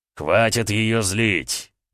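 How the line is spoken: Barked. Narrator (Russian): рявкнул Эдуард

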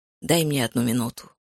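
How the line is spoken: Muttered. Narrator (Russian): пробормотал

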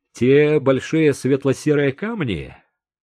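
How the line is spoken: Muffled chuckle. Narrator (Russian): Артур хохотнул в кулак

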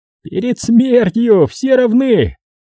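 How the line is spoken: Giggling. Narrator (Russian): хихикнул Волтон

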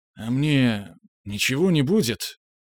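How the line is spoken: Mumbled hesitantly. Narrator (Russian): промямлил он

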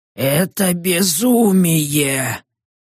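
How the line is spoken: Old woman's rasp. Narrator (Russian): прохрипела старуха мне в спину

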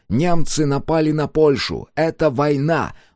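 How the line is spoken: Loud voice in silence. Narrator (Russian): громко раздался его голос в тишине помещения

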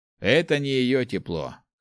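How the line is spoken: Snorting. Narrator (Russian): хмыкнул старшая рука тьмы

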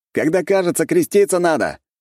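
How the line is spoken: Shout. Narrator (Russian): крикнул я в сторону научников

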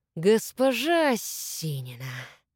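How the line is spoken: Serpent hissing. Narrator (Russian): прошипел змей

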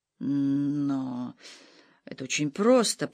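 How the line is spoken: Mumbling. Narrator (Russian): промямлил Лапушель

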